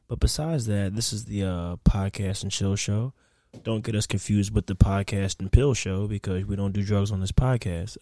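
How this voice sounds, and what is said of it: Very mellow, relaxed voice. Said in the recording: “I'm speaking in a very mellow voice right now because I'm in a very mellow tone.”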